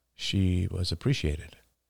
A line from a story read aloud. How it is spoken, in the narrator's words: murmured Oliver